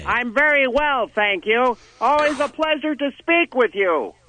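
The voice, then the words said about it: Yelling, very loud speech. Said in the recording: “You don't have to yell, actually. We can hear fine”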